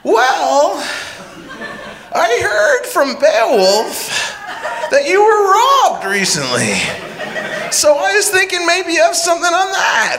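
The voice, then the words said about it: Imitates another person's voice. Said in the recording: “This is my Kevin Allison impression.”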